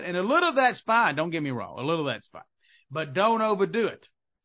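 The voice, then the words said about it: Southern American accent. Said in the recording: “I'm Southern, as you can tell from my accent”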